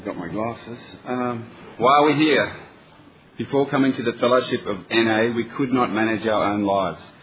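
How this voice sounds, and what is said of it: Australian accent. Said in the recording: “a true Australian accent ... True Australian accent”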